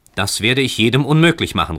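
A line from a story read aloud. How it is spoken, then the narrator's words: Called out. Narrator (German): rief Heinrich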